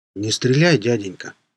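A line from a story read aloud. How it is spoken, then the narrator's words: Hollow muffled voice. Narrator (Russian): сказал зомби глухим голосом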